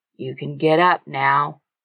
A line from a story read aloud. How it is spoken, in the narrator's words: Hank said in a soft voice